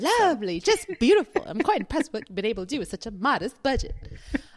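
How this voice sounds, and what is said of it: Imitates another person's voice. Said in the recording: “my Eddie Murphy impression”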